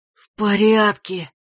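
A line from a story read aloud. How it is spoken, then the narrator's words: Hoarse reply. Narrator (Russian): хрипло откликнулся лежащий рядом Грег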